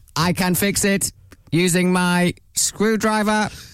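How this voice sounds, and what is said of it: Robot voice. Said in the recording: “A robot voice. ... You're still doing the voice.”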